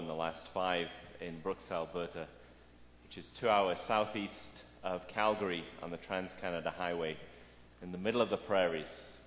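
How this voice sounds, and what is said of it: British Manchester English accent. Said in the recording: “there's an accent there... I'm British, born and raised in Manchester, England”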